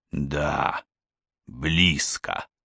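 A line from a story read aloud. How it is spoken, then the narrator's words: Mutter. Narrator (Russian): пробормотал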